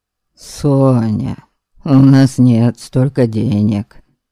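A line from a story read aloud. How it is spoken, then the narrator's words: Sigh. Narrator (Russian): вздохнул Иван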